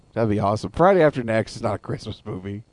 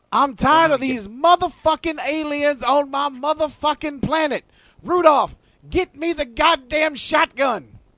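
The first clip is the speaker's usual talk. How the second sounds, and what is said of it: Yelling imitation of another person's voice. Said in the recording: “Santa Claus played by Samuel L. ... I can't stop yelling ... because that's how I talk.”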